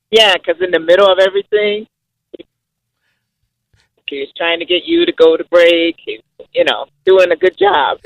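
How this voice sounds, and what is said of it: Slight Haitian accent. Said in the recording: “She has a slight Haitian accent.”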